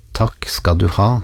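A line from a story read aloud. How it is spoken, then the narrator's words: Plain, young boy. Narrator (Norwegian): sa gutten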